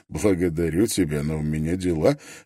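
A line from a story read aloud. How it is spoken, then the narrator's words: Suppressing laughter. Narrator (Russian): ответил Строн, с трудом удерживаясь от того, чтобы не расхохотаться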